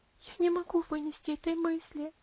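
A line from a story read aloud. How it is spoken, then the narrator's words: Sobbing. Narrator (Russian): рыдала Аделаид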